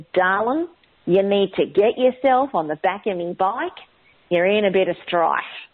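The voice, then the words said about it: Broad Ocker Australian accent. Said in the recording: “the sound of the Ocker Aussie accent”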